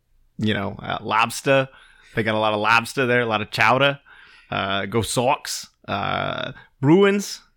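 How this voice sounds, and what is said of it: Put-on Boston accent. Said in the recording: “that's my new accent ... that one was probably the best one out of all of them ... second in place is Boston ... I honestly thought you had moved to Boston or at least the Northeast”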